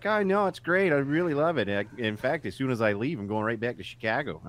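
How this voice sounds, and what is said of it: Put-on Chicago accent. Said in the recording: “with her Chicago accent”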